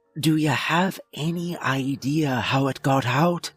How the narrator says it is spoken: the warden asking over the anxious whispers of the rest of the staff

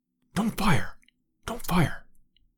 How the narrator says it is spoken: whispered Lord John

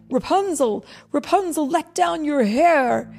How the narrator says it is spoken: the prince cried

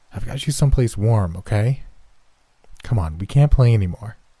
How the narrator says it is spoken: I answered

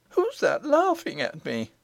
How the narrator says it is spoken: said the princess, trying to keep in her sobs

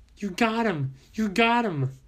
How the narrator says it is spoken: Chelsea began to yell

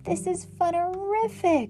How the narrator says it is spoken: I screamed while we zipped towards the clouds

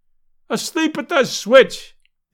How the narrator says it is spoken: yelled the delighted fan

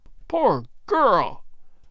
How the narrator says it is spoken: Good cried

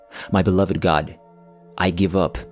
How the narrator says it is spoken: murmured to God

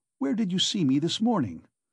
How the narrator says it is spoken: Raskolnikov asked uneasily

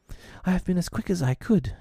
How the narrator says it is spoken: she panted

